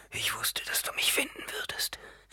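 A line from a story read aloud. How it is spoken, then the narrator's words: Whisper. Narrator (German): flüsterte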